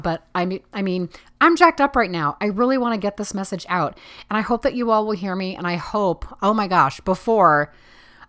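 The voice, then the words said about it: Talking really loud, excited. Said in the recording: “I'm talking really loud”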